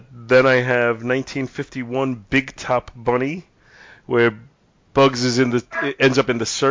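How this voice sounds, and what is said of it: Usual voice. Nothing is said of it.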